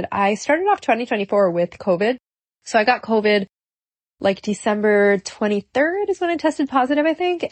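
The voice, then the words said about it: Congested, stuffy-nosed voice. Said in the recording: “sorry for my voice right now. I feel like I'm really congested. I am really congested.”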